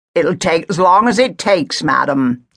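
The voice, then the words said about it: Thick Gloucestershire accent. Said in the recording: “he said in a thick Gloucestershire accent.”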